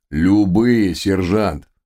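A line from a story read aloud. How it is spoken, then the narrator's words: Barked. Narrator (Russian): рявкнул мистер Хаггард, душа конфликт в зародыше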